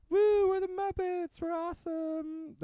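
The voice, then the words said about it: Miss Piggy character voice impression. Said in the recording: “my Miss Piggy impersonation. ... was closer woo, than what you were doing earlier.”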